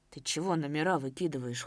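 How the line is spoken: Cold question. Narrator (Russian): холодно спросил Давыдов

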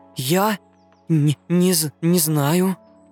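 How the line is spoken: Trembling whisper, little hare. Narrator (Russian): дрожащим голосом прошептал зайчонок

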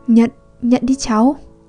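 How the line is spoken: Stammering. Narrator (Vietnamese): Hắn lắp bắp nói

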